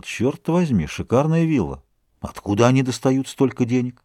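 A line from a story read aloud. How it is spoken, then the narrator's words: Muttered. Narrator (Russian): Дюруа пробормотал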